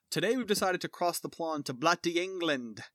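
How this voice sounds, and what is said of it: Put-on English accent. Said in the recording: “I was already getting into the accent”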